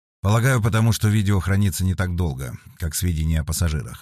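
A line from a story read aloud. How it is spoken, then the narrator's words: Plain. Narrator (Russian): ответил Феликс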